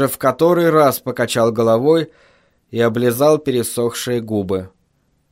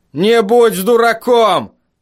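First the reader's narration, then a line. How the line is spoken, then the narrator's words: Shout. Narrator (Russian): крикнул Росс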